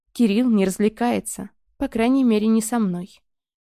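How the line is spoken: Sad. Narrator (Russian): грустно добавила я

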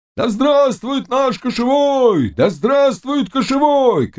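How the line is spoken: Hoarse crowd roaring. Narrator (Russian): кричали охрипшие голоса с такой силой, что стены дрожали до основания

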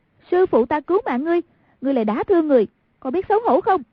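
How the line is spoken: Cry out. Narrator (Vietnamese): Hoàng Dung kêu lên

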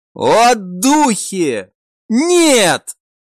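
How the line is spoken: Soldier's plaintive cry. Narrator (Russian): жалобно прокричал один из солдат

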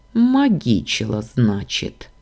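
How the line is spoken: Calm smirk. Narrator (Russian): уже спокойно усмехнулся он

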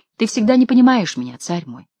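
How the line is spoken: Calm reply. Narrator (Russian): спокойно ответила Таис

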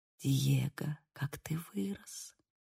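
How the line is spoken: Mother whispering. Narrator (Russian): прошептала мать

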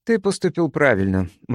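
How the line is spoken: Said gloomily. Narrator (Russian): мрачно сказала она

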